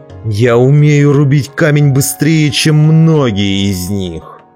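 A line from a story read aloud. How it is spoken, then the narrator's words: Furious growl. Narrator (Russian): яростно прорычал он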